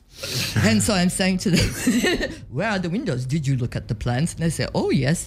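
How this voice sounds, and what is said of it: German accent. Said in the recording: “I love her German accent, by the way. That's a fine German.”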